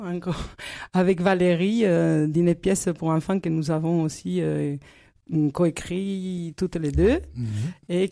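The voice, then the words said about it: Noticeable accent. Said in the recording (French): “J'aime beaucoup ton accent”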